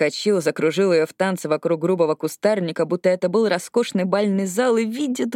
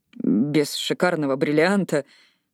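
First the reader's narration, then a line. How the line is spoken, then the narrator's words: Muttering. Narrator (Russian): пробормотал он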